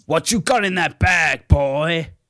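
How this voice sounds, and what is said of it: Gruff put-on American accent. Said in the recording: “a gruff voice ... Straight up American accent”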